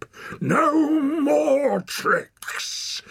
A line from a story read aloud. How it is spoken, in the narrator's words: bellowed the walker